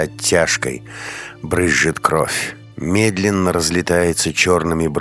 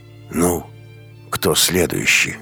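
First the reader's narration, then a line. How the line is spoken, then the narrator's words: Hoarse rider. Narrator (Russian): говорит всадник хрипло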